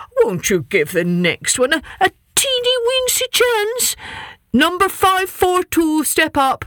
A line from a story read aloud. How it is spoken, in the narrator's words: the king plead